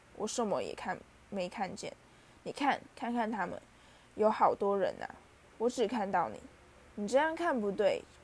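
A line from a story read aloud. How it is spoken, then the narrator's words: Soft speech. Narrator (Chinese): 哈利轻声说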